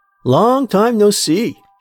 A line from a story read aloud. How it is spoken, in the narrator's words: said loudly